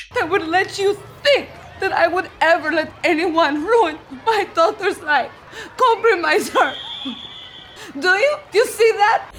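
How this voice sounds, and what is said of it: Witch character voice, Italian-sounding accent. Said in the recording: “that was an amazing impression of the Wicked Witch... I'm pretty sure she wasn't Italian”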